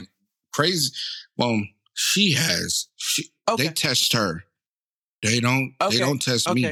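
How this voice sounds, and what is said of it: Usual voice. Nothing is said of it.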